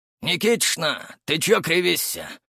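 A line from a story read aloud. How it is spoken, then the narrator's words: Hoarse question. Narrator (Russian): спросил хриплый голос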